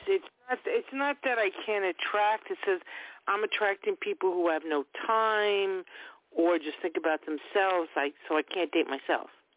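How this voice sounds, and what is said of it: Long Island accent. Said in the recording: “I'm enjoying your accent because I'm originally from Long Island myself, and I'm just loving your accent.”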